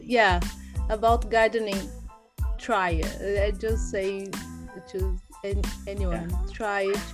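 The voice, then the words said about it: Brazilian-accented English. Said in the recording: “your you accent is so beautiful ... I have a Brazilian accent.”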